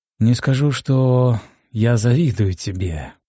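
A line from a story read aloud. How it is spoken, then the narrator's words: Sad, finally speaking. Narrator (Russian): печально произнес наконец-то капитан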